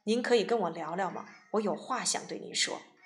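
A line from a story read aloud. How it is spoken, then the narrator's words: Sighing to the sky. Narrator (Chinese): 韩信仰天叹息说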